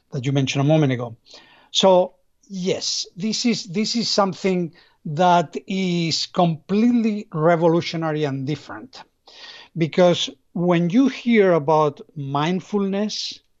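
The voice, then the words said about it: Spanish accent. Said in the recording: “I'm originally from Spain, I guess. You notice that with my accent.”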